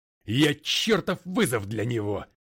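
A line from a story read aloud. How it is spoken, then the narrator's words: Barking. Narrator (Russian): рявкнул Макгрей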